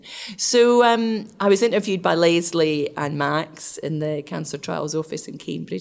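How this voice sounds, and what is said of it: Scottish accent. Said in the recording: “I have a Scottish accent”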